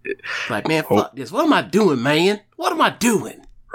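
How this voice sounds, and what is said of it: Imitates another person's voice. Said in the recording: “that's my bitch Jeff Hardy accent I got. It sounds remarkably a lot like AJ Styles”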